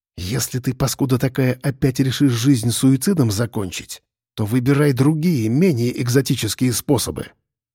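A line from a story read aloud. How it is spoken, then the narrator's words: Quiet hissing whisper by ear. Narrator (Russian): Раздался над его ухом тихий свистящий шепот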